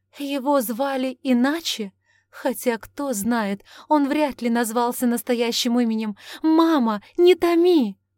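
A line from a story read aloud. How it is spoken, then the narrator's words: Pleading. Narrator (Russian): взмолилась Августа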